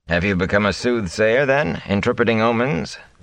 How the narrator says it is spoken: Tam asked dryly

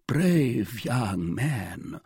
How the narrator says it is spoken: murmured the king

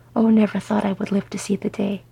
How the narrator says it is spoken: Bifur said happily

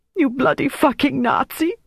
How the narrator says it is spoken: she sobbed

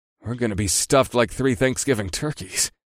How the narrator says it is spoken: I muttered

